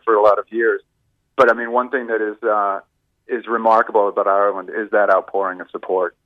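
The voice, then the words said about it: Boston American accent. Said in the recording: “you might pick up from my accent. I'm, I'm from Boston originally.”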